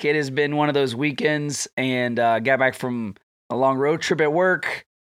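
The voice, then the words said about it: Sick, strained voice. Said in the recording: “If you can hear it in my voice, I'm pushing through. I am sick.”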